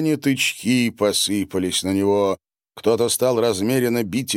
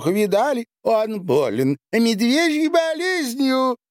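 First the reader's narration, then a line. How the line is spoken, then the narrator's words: Guffawing. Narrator (Russian): Трамвай захохотал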